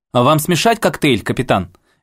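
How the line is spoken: Cheerful question. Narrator (Russian): весело спросила Джанет

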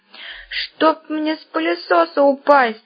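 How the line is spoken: Groaning. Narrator (Russian): застонал Баб-Ягун

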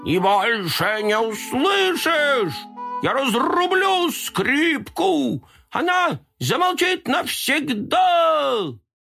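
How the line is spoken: Terrible scream. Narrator (Russian): Бантик страшно закричал

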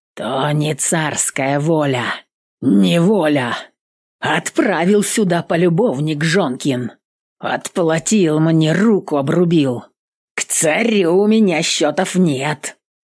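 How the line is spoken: Growl. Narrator (Russian): Сказал или прорычал Григорий

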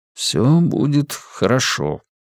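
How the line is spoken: Quiet promise. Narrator (Russian): тихо пообещал он

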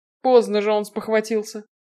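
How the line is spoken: Snort. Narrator (Russian): хмыкнул Роле

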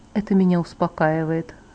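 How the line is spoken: Soft agreement. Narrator (Russian): согласился Эдвард мягко

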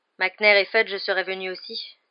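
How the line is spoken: Bitter. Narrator (French): dit Harry d'un ton amer

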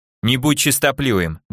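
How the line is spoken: Harsh tone. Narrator (Russian): довольно жестким тоном заметила Алия

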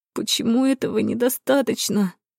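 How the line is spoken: Moaning. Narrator (Russian): простонала Кара

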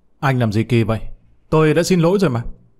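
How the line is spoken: Angry. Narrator (Vietnamese): Thắng một cách tức giận, nói

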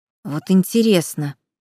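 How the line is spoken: Hissed in ear. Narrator (Russian): прошипели мне в ухо

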